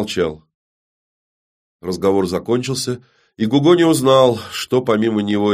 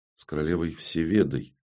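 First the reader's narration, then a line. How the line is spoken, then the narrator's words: Very quiet correction. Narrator (Russian): тихо-тихо поправил его серб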